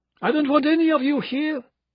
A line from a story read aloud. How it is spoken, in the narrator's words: she cried out